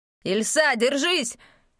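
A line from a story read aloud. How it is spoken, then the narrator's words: Shouted. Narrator (Russian): закричал наставник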